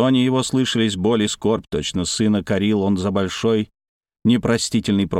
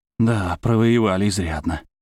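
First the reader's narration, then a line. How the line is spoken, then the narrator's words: Bitter sigh. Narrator (Russian): вздохнул кто-то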